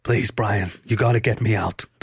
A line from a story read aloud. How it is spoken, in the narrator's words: the bull muttered